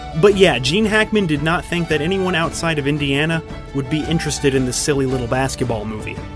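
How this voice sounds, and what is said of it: Usual voice. Nothing is said of it.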